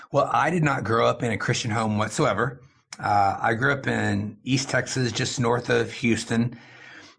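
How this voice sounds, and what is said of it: American accent. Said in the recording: “an American accent, I should say, and not an Asian accent.”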